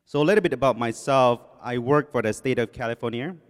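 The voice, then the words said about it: English with Thai accent. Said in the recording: “a message in English with Thai accent, with a little Spanish mixed in there”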